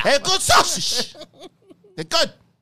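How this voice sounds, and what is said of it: Put-on accent, not Italian. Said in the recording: “What is that even, that accent? It's not Italian.”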